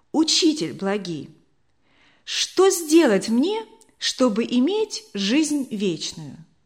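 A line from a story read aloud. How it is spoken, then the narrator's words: Plain. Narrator (Russian): спросил он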